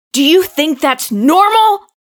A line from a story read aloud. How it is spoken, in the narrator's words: He shouts